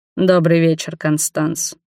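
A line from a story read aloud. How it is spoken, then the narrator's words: Cold. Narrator (Russian): холодно произнес Роберт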